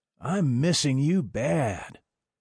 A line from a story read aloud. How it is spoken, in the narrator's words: moaned in earnest